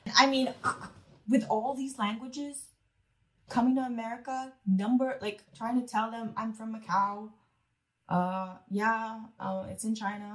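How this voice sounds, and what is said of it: American accent. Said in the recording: “how do you sound so American?”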